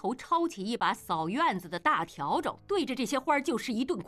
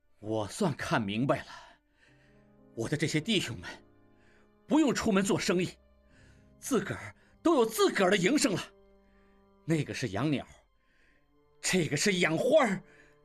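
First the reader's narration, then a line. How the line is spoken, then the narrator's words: Angry. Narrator (Chinese): 应季怒道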